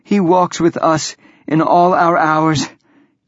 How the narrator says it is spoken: gasp

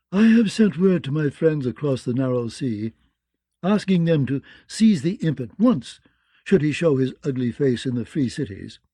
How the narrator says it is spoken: said in her sultry, mirish tones

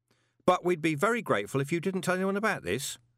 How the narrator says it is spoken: said Carlton quickly

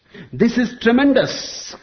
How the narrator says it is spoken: cried the preacher

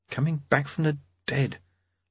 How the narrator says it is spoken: Lobsang murmured

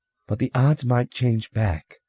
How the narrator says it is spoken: Margaret Dufay, president of the council, said nervously

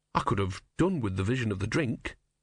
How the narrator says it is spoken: he said wearily

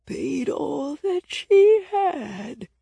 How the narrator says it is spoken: the person went on, their voice so old and scratchy I couldn't tell if they were a man or a woman

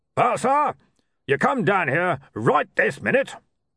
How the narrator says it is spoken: Arch-Chancellor Mustrum Ridcully barked through his megaphone

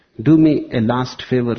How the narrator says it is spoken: said the Pope

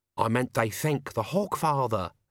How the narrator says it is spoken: Albert hissed

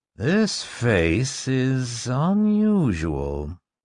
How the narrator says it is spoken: Barris murmured

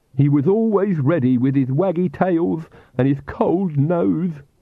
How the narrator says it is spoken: Igor sobbed

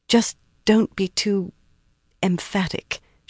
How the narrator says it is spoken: she said softly

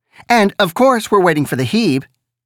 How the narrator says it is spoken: Annette said

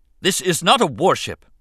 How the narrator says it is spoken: Captain Panaka snapped, looking angry and betrayed

